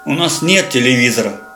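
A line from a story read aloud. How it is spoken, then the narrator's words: Grumbled. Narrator (Russian): пробурчал Вовка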